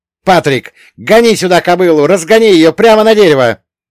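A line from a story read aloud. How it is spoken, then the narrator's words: Yelled to a friend. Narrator (Russian): заорал я другу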